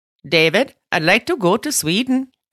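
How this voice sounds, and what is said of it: Exaggerated mock Swedish accent. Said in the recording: “That is not how they talk ... that's how my Swedish accent is ... you get it from the Muppet Show”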